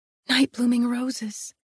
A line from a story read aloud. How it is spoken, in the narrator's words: I whispered